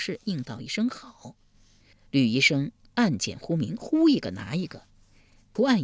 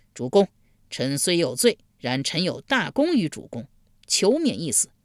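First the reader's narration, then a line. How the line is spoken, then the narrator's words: Loud cry. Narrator (Chinese): 贾华高声呼道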